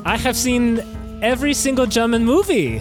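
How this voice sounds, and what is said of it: Put-on German accent. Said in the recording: “her interesting accent,... she is actually from Germany.”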